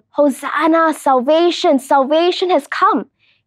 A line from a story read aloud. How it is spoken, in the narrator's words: The people were shouting